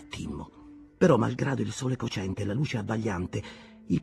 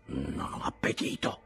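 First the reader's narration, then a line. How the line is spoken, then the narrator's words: Muttering. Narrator (Italian): borbottò Morgan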